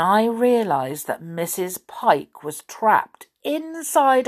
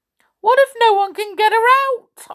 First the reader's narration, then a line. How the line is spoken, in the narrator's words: gasped